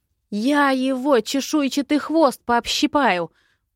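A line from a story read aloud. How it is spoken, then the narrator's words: Hissed through clenched teeth. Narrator (Russian): процедила сквозь зубы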